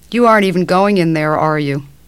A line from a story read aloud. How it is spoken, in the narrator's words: The head nurse sighed